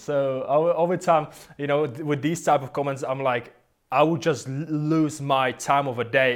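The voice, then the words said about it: Foreign accent speaking English. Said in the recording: “comments even about my accent ... I would ever buy from a foreigner”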